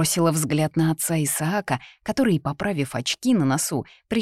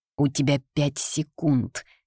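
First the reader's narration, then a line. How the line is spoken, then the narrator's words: Through clenched teeth. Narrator (Russian): произнесла я сквозь зубы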